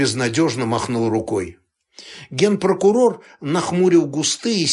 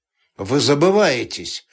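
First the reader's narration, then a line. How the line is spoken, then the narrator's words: Dry, curt. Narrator (Russian): сухо сказал он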